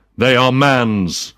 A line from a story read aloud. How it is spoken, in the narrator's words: cried the spirit